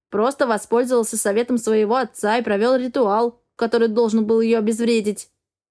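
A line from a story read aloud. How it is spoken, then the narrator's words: Plain. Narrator (Russian): ответил Эгра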